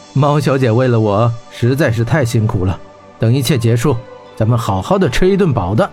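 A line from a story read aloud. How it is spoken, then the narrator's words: Laughing. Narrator (Chinese): 霍真笑道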